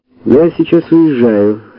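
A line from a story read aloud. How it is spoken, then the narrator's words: Calm. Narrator (Russian): спокойно произнесла Женя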